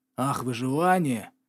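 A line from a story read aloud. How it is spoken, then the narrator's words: Hiss. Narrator (Russian): зашипел Кавендиш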